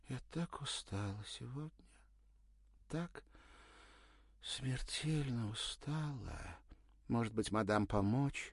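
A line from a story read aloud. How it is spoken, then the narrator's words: Hurried, plaintive thin sobbing voice. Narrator (Russian): заторопилась она, жалобно всхлипнув, проговорила тоненьким голосом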